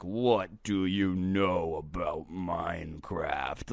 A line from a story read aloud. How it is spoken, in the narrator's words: he says, except it was more of a growl